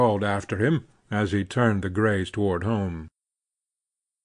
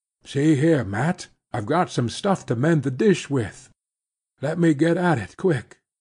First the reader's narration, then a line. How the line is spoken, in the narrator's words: he cried